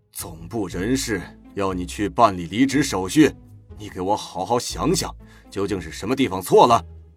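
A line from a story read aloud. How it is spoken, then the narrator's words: Deep, stern. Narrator (Chinese): 曹广厦深呼吸，沉声问道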